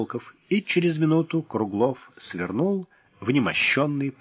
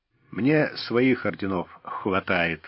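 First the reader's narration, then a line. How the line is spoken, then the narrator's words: Gruff mutter. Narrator (Russian): буркнул Старлей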